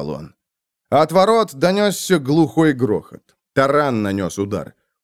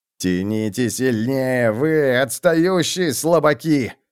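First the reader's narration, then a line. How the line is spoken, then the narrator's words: Growled. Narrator (Russian): прорычал Роди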